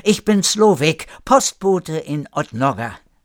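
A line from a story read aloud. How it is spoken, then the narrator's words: Searching for words, calling out. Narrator (German): Noch nach einer Antwort suchend rief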